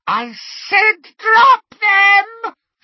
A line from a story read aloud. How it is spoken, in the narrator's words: she screeched